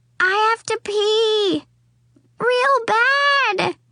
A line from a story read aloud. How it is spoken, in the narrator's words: James shouted